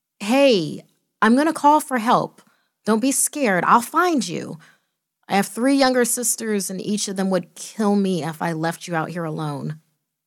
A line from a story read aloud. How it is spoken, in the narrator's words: cried out